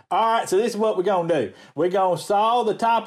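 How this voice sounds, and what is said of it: Southern accent. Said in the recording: “whenever you hear the Southern accent”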